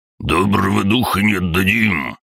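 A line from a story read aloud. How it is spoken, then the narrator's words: Roaring old man, in unison. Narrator (Russian): проревел бородатый старик одновременно со мной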